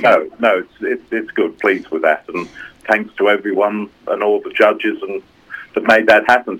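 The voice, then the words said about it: English accent. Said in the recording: “I can hear the English accent.”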